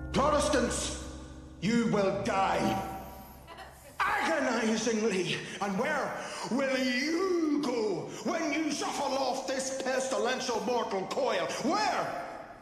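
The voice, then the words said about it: Thick Irish brogue. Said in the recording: “the Irish accent is thick ... the Irish brogue is a lot”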